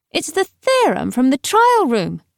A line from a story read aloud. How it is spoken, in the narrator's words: she called out